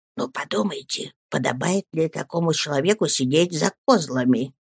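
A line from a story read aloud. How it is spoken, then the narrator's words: Whisper in the ear. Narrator (Russian): шепнул мне на ухо Вильям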